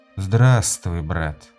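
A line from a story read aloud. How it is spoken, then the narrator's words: Tired. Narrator (Russian): устало сказал Дорс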